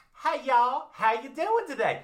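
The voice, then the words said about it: Put-on Southern accent. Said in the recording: “You have a Southern accent? You know Southern accents?”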